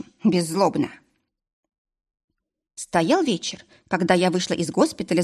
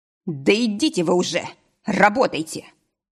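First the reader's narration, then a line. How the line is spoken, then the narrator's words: Snapping. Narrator (Russian): огрызнулся лекарь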